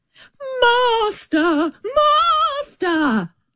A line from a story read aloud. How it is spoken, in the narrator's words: the harp called out quite loud